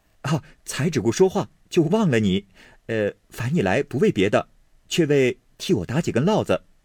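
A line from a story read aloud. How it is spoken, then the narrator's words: Smiling. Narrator (Chinese): 宝玉笑向婴儿道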